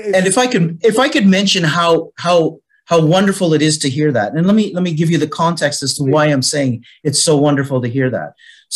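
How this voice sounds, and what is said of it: Canadian English accent. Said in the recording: “as you can hear with my accent, I'm originally from Canada. Was born in Canada.”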